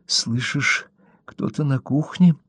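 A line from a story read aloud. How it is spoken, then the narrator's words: Whisper. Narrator (Russian): прошептала Кэрри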